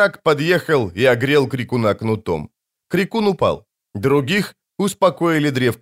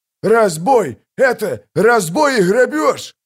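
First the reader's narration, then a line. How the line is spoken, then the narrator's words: Big man shouting. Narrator (Russian): крикнул здоровый мужик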